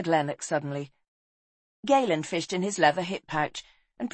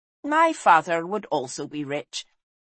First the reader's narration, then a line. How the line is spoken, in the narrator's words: said Lane dryly